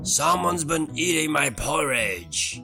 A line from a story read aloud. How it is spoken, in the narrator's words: roared Daddy Bear